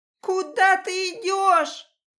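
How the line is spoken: Piercing shriek. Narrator (Russian): Уже на грани ультразвука крикнула я

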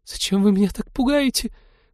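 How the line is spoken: Frightened squeak. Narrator (Russian): пропищала она

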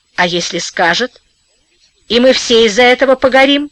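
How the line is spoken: Calm, patient, reasoning. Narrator (Russian): Сквозняк говорил спокойно и рассудительно, словно объяснял нерадивому ученику

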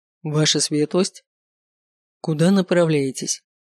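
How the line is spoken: Dry, curt military tone. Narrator (Russian): спросил его по-военному сухо паромщик

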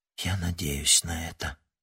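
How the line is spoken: Whisper. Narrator (Russian): прошептала она

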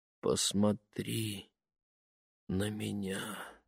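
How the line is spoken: Soft request. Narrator (Russian): негромко попросил он

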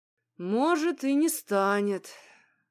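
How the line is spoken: Sighing agreement. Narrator (Russian): вздохнув, подтвердил Михей

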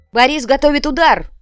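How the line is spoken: Shouted. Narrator (Russian): крикнул Треми

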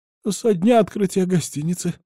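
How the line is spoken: Timid babbling. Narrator (Russian): пролепетала она

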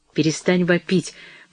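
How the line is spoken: Sharp shout. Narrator (Russian): прикрикнул он на нее

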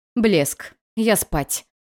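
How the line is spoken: Irritated growl. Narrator (Russian): прорычала в ответ, желая наорать на них всех

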